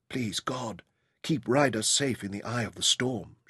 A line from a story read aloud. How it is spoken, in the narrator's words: she whispered